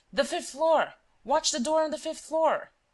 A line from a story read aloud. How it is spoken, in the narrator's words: failing to find it, he shouted